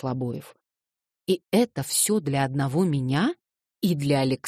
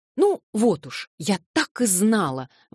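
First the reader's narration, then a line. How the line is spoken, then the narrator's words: Blushing, pleased exclamation. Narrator (Russian): воскликнула закрасневшись Александра Семеновна, но нисколько не потеряв своего довольного вида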